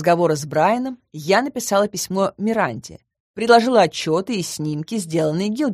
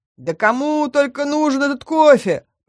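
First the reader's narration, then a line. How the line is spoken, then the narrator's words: Demon's grumble. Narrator (Russian): проворчал долговязый демон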